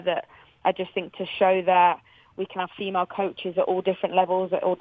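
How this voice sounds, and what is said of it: English accent like Emma Hayes's. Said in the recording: “we love your accent. Another coach with your accent, Emma Hayes ... with the accent”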